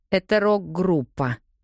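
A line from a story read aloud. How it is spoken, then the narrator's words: Explaining through teeth. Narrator (Russian): объясняю я сквозь зубы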